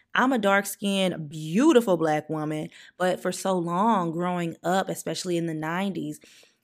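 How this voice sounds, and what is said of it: Southern accent. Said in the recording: “I do have a southern accent”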